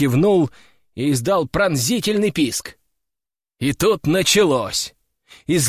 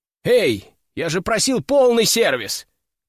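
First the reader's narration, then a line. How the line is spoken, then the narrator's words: Shouting after them. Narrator (Russian): крикнул я им вслед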